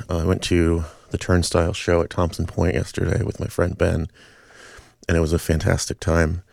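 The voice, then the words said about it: Slightly hoarse, tired voice. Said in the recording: “I feel like my voice is a little hoarse, and I'm probably a little tired.”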